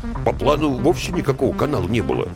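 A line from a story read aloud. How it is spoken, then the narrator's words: Grumbled from behind. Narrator (Russian): буркнули из-за спины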